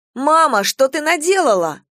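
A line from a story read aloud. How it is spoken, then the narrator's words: Exclaiming. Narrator (Russian): воскликнула Настя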